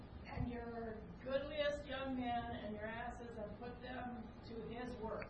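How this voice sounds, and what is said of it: Reading aloud very loudly. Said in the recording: “in as loud a voice as you can ... do my loud voice”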